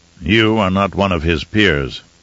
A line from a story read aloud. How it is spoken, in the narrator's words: Raban growled